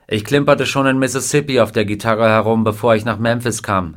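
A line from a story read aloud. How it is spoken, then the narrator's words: Plain. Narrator (German): sagte er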